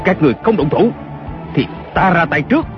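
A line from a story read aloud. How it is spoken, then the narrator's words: Shout. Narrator (Vietnamese): Kiều Phong lại quát lên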